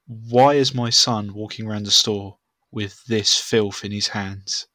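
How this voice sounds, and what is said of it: Posh Queen's English accent. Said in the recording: “this woman's speaking Queen's English... where's this Scottish accent gone?... Where's her accent gone?”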